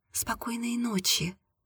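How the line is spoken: Whisper. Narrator (Russian): прошептала Аня

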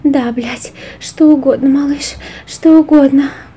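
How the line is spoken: Breathless exhale. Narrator (Russian): выдохнула Джилл

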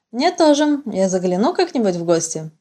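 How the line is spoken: Plain. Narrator (Russian): спросила я

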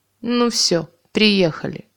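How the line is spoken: Muttered. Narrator (Russian): пробурчал мужик

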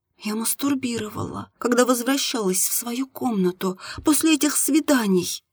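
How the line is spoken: Embarrassed whisper. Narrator (Russian): прошептала Марина, и ее лицо покраснело еще сильнее

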